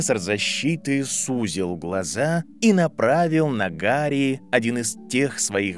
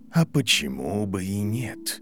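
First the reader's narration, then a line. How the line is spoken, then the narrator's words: Gentle reply. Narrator (Russian): мягко ответил профессор Квиррел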